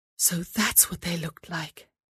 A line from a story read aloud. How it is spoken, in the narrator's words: she whispered to herself